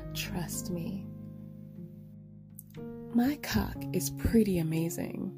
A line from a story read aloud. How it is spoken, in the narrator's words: Bryce said with a humble sigh